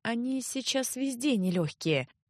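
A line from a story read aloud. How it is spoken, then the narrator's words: Evasive sigh. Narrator (Russian): уклончиво вздохнула тетушка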